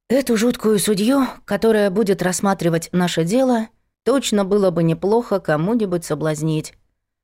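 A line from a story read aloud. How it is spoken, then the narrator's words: Sighing. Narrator (Russian): вздохнула Надка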